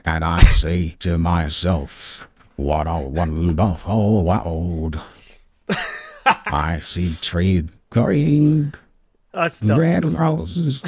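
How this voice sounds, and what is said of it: Sung imitation of another person's voice. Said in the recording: “Are you doing an accent with the Morgan Freeman? ... an accent over the top of the Morgan Freeman thing ... sing something like Morgan Freeman would sing”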